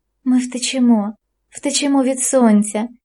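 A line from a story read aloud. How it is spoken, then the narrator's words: Whispered. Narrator (Ukrainian): вона шепотіла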